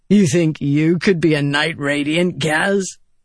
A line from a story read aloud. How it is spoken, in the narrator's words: Vatha said, chuckling